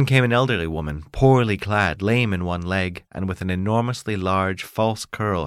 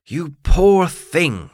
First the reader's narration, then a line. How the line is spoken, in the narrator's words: she cried